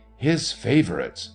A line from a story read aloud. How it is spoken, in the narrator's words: exclaimed my companion, with clear joy in his voice